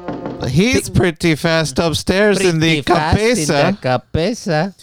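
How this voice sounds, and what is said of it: Cartoon Mexican mouse voice. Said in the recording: “talking like a Mexican mouse”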